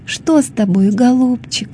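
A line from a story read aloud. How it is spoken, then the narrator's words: Tender lisping. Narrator (Russian): ласково шепелявила она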